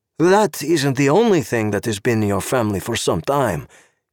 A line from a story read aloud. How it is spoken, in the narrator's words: Karel said